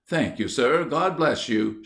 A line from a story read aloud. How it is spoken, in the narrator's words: exclaimed joyfully